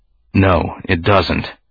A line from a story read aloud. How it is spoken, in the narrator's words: Organa said, his voice low